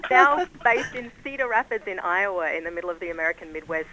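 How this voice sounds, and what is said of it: Mixed Australian and Californian accent. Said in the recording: “my accent ... I grew up in Australia and then lived in California for 10 years ... The accent you hear today is Australifornian”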